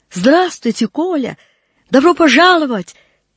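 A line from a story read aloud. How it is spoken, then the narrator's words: Sweet, Parisian-accented rolling speech. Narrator (Russian): Мил был ее не совсем правильный, с парижским раскатистым картавлением говор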